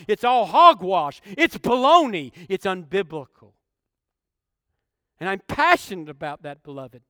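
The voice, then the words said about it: Yelling, passionate preaching. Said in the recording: “why am I yelling? I'm just passionate”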